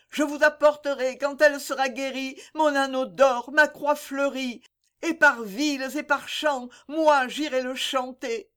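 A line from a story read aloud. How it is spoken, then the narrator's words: Mother crying out. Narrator (French): s'écrie la mère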